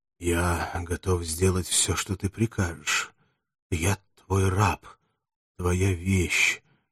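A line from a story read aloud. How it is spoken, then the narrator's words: Barely audible. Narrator (Russian): ответил Спартак чуть слышно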